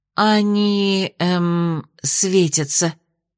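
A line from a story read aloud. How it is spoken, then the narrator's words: Uncertain babbling. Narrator (Russian): неуверенно пролепетала та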